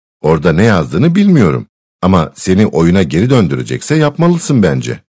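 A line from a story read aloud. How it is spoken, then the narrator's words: Plain. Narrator (Turkish): dedi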